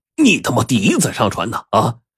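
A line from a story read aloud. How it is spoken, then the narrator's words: Angry cursing. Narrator (Chinese): 翟富成就来了气了，怒骂道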